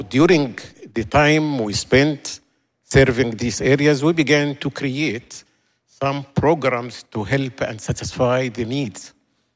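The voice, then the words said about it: Speaks English with an accent. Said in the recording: “I hope you are getting my accent... It is accent.”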